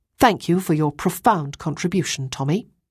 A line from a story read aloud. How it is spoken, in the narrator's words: said Ruth